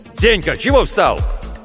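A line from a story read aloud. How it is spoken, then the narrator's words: Displeased shout. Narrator (Russian): недовольно закричал Владимир Гаврилович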